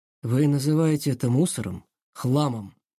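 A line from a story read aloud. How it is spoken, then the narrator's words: Slow calm quiet cutting speech. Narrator (Russian): Не торопясь, спокойно и негромко сказал Корнеев, и каждое его слово будто рассекало воздух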